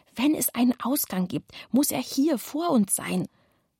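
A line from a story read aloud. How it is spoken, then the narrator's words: Whispered. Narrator (German): flüsterte Kevin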